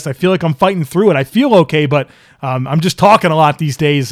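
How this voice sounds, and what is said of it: Strained, fading voice. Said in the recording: “I feel like I'm losing it a bit here ... my voice was a little bit inconsistent at times”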